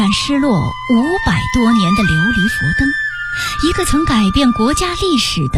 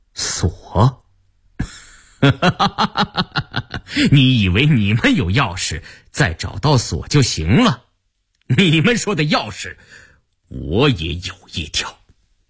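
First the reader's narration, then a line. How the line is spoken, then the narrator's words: Stifled laugh. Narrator (Chinese): 苏正哑然失笑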